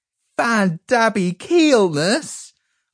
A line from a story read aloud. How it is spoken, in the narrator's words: I cried